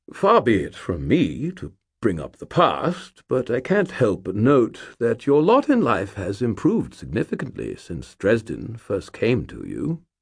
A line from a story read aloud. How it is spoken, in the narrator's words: he cleared his throat and said in a diffident tone